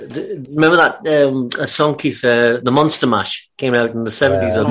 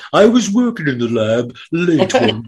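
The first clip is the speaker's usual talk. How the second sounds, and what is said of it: Imitates another person's voice. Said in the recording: “impersonating Boris Karloff ... That's a damn good impression”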